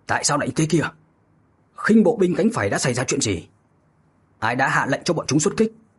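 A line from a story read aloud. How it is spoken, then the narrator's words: Loud angry demanding questions. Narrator (Vietnamese): Diệp Định Tây lớn tiếng quát hỏi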